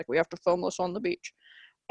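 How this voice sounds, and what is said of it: Imitates another person's voice. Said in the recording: “your Michelle Gondry impression ... I do the same voice for everybody”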